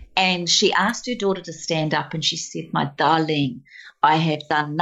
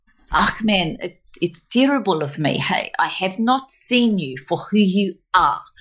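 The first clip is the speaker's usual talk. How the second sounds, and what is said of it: Good put-on South African accent. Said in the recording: “It's really good. You're very good at it. Can you please keep going with the South African accent?”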